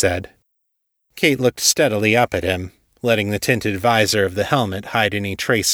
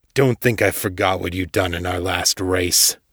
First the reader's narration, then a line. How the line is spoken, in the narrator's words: growled